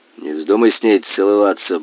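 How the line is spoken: Mutter. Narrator (Russian): буркнул он

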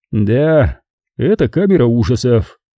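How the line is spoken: Gloomy. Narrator (Russian): мрачно подтвердил Болон

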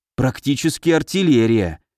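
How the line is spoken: Envious sigh. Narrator (Russian): с явно слышимой завистью в голосе вздохнул Михаил

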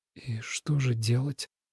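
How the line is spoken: Whisper to oneself. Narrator (Russian): шепотом спросил Тобиас, будто бы у самого себя

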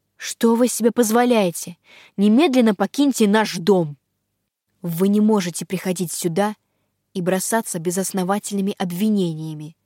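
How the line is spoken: Firm, suddenly angry. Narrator (Russian): Твердо и неожиданно зло произнес Датан

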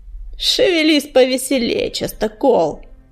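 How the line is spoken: Mocking encouragement. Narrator (Russian): насмешливо подбодрил чернопят

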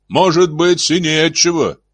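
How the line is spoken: Shouted reply. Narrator (Russian): крикнул ему в ответ Шеффилд

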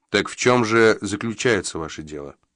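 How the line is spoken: Remarkably calm. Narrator (Russian): Хозяин говорил на диво спокойно

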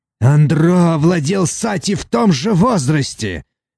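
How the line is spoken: Snapping retort. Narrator (Russian): огрызнулся Казикар

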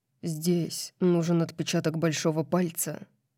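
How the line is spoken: Deep-voiced explanation. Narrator (Russian): объяснил он своим глубоким голосом

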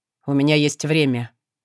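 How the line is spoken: Muffled, hollow voice. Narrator (Russian): глухо изрек он

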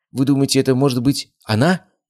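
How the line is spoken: Frightened question. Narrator (Russian): испуганно спросил мужчина

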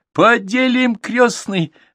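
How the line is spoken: Joyful girls. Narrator (Russian): радостно ответили девочки

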